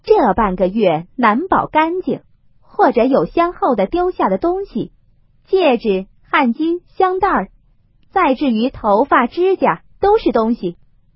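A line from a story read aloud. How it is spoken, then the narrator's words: Cold sneer. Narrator (Chinese): 凤姐冷笑道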